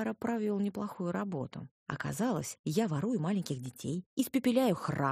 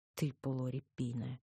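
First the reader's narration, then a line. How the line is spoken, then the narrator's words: Cursing through teeth. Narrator (Russian): ругнулась я сквозь зубы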